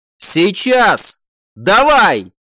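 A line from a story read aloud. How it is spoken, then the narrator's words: Shouting. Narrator (Russian): закричал командор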